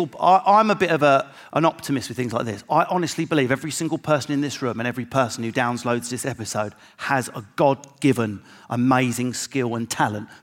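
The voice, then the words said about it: Essex accent. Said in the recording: “putting on an Essex voice?”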